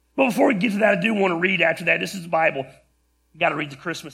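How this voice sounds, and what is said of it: Hoarse, strained, fading voice. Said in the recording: “I'm losing my voice... my voice isn't going to hold up”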